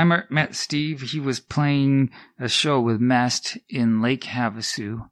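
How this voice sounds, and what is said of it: Usual voice. Nothing is said of it.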